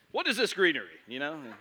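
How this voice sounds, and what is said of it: Game show host voice. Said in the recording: “Talks like a game show host... I can do a good Tim Hawkins impression of the devil”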